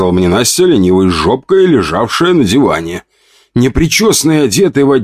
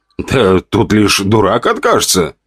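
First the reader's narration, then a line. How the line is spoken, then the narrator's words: Snorting remark. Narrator (Russian): хмыкнул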